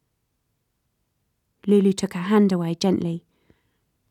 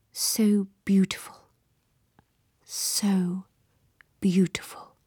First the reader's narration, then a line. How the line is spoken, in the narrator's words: Parlachin murmured